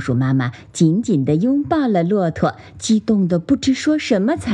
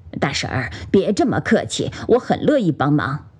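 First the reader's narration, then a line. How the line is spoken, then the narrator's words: Smiling. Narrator (Chinese): 骆驼笑了笑说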